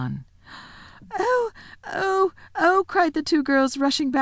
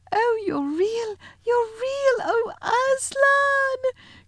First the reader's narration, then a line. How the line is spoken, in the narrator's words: cried Lucy